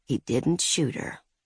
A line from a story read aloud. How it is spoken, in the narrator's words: Olive whispered